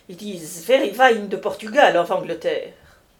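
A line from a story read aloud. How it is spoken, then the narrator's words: Exclaimed. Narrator (French): s'écria Peyrade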